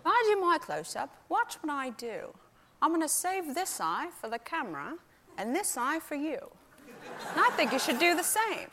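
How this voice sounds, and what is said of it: Bad impression of an older actor. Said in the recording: “this is a very bad impression”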